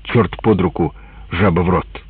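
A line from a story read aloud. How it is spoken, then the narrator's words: Angry muttering. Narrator (Russian): Мы злились, бормотали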